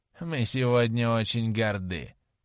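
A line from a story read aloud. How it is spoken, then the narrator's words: Mocking. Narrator (Russian): насмешливо проговорила она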